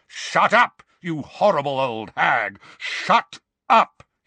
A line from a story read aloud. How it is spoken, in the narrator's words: he roared